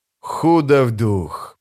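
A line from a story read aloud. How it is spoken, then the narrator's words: Hissing. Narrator (Russian): прошипел Калам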